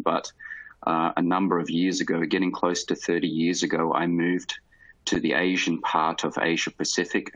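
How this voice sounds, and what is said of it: Australian accent. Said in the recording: “you can probably hear in the accent, which I have not lost, um, still very Australian.”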